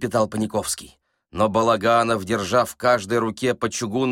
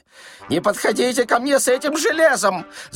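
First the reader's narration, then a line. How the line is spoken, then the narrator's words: Panicked shriek. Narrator (Russian): завизжал Паниковский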